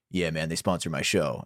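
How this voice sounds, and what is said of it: Exaggerated deep male voice. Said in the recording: “I don't know why he has a super deep voice. He doesn't even sound like that.”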